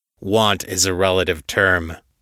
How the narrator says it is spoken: the captain growled

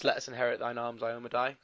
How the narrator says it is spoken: coming through quite quietly

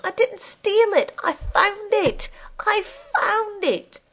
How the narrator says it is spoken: In a sudden panic, Eileen wants to scream

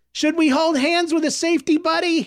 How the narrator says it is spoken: shouted over the crowd

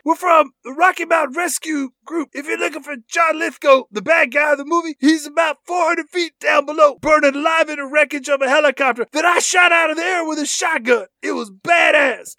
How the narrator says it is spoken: Michael Rooker shouts back

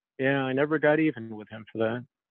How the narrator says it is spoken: very quietly he says

